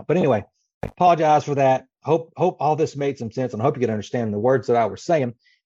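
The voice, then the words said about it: Dry, strained voice giving out. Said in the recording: “I apologize for the sound ... my mouth is so dry ... it's still not helping my throat. So I guess my voice is going out”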